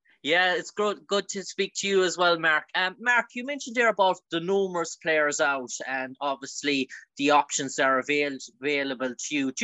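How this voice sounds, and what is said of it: Regional accent. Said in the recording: “Great to hear that accent, pal.”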